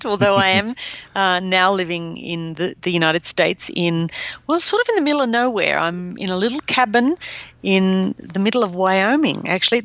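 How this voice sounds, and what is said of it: Australian accent. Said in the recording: “You hail from Australia ... You can probably tell from my accent”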